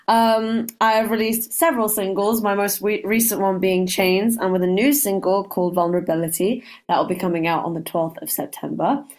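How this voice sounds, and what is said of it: Speaks with a noticeable accent. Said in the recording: “I love your accent. I'm going to really enjoy speaking with you just for the accent.”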